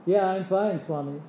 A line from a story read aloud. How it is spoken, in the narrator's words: I said